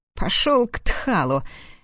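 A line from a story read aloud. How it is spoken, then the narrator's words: Barked. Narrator (Russian): рявкнул я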